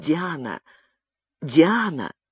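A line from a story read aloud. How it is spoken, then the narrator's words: Hushed call. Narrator (Russian): Габриэль, стараясь говорить как можно тише, позвал вполголоса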